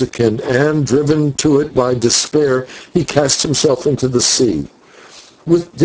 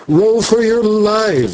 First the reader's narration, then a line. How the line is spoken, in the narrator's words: shouted the boatswain